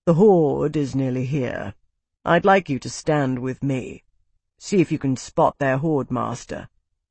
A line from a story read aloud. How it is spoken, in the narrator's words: he said calmly